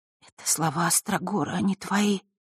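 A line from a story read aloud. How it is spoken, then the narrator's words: Tearful whisper. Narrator (Russian): прошептала Василиса, едва сдерживая слезы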